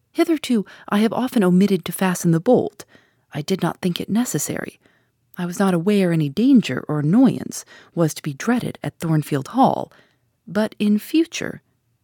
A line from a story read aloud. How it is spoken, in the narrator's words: I replied sharply